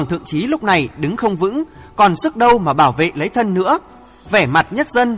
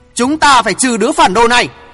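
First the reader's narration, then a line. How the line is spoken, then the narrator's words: Shouted. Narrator (Vietnamese): Tiếng thét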